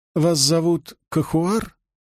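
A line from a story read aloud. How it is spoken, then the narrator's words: Soft correction. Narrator (Russian): Зеленоглазый мягко поправил ее произношение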